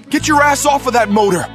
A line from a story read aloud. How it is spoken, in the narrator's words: yelled Animal from somewhere around the second flight of stairs